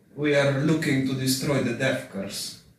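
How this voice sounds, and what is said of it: French-Russian character accent. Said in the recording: “It's like a French Russian accent ... I think that's a great accent. ... I think it's great for the character.”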